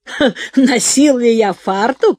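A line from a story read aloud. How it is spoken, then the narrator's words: Old man's loud laugh. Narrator (Russian): расхохотался старик Жерар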